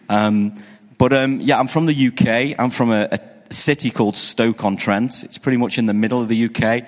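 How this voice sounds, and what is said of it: English accent. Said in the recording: “I'm from the UK, you can probably tell by my accent”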